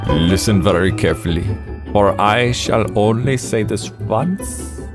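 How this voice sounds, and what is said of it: Bad put-on German accent. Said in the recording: “Fletcher's German accent is worse than our German accent. ... This is not even Colonel Klink level.”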